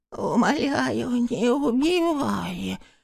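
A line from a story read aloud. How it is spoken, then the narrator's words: Lisping, whistling plea. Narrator (Russian): взмолился Шеликун на вполне понятном русском языке, только немного шепеляве и присвистывая в конце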